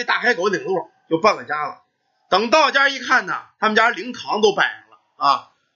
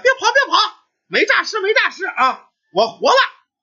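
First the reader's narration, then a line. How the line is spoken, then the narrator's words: Shouting. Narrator (Chinese): 他一嚷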